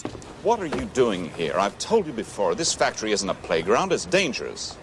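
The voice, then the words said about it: Refined upcountry Massachusetts accent. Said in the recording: “How's his accent for you? ... I like his accent ... It's not Kennedy spread. It is very Laconia. It's very upcountry ... it's like a refined Massachusetts accent.”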